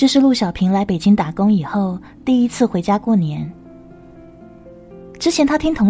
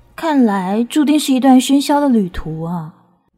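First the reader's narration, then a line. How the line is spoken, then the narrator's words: Inner long sigh. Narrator (Chinese): 她在心里仰天长叹道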